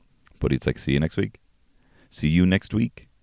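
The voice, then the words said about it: Put-on Indian accent. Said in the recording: “I'm going through the accent because he was Indian.”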